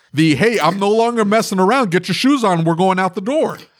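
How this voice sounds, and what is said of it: Stern shouting dad voice. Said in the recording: “dad voice ... I'm screaming”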